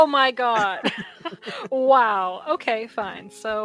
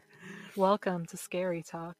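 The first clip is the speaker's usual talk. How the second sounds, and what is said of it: Husky spooky late-night host voice. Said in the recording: “your spooky voice ... let me get all husky. We're gonna do for like a 4 a.m. talk show”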